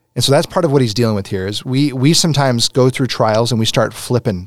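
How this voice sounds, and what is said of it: Usual voice. Nothing is said of it.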